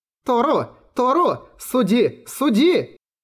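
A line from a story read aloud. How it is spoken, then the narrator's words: Shouting. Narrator (Russian): Прокричала Белая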